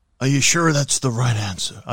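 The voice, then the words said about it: Generic grumpy American accent. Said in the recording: “Just generic, grumpy American accent.”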